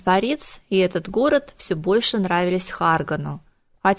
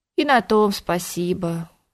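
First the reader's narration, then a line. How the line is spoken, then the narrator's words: Sad rustling whisper. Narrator (Russian): грустно прошелестела толстуха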